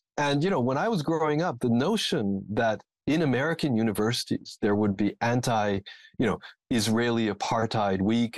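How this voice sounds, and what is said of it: American English accent. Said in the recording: “when I was younger, I lived in the United States. This is, of course, obvious from my accent.”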